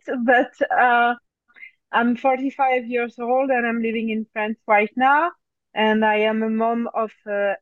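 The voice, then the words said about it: French accent. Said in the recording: “So I'm French. Maybe you can notice my accent even if I try to erase it.”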